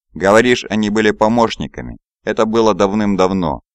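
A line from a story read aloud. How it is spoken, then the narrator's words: Plain. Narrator (Russian): ответил Эмантин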